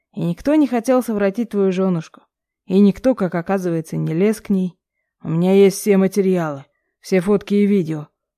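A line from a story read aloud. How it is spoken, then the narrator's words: Angry growl. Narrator (Russian): рыкнул отец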